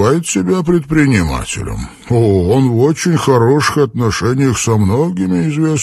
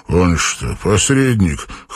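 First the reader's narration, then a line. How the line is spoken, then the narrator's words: Scoffing grunt. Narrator (Russian): хмыкнул Армстронг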